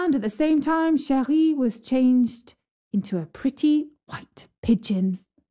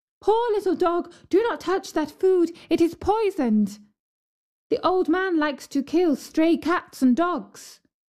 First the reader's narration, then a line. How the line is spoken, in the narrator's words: the girl cried